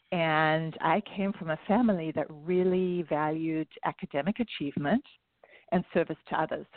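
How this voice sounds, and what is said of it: South African accent. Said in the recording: “you can hear I have an accent. So I wasn't born here. I was born in South Africa.”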